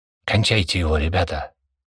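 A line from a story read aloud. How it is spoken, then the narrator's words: Hiss of restrained fury. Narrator (Russian): Михайлов, с трудом сдерживая ярость, зашипел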